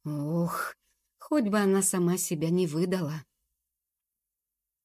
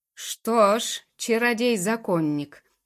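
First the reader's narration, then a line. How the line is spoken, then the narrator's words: Thundering voice. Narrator (Russian): прогремел он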